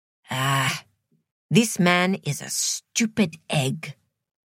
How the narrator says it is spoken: said Sue Lynn under her breath

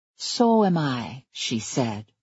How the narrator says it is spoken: she said, but gently

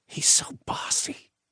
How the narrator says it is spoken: Naomi said in a stage whisper

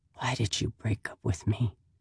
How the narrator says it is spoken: whisper

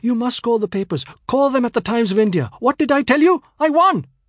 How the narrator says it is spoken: my mother said excitedly

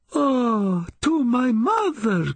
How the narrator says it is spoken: cried I

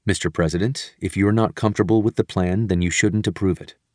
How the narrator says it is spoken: Dunford was quick to add, in his steady voice

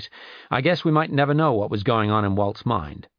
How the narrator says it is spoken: he said in his strong, confident voice

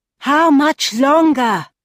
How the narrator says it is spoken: She shouted forwards

